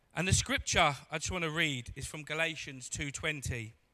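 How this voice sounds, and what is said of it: Croaky, hoarse voice. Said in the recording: “I've got a croaky voice, so I need some water. ... a croaky voice makes you sound a bit more hard, you know, rather than my squeaky voice.”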